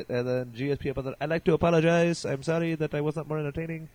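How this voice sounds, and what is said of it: Imitates another person's voice, poorly. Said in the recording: “That was my awful GSP impression.”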